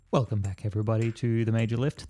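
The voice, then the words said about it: Sexy radio announcer voice. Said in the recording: “That's my sexy radio voice intro that I tried and I bailed out of very quickly.”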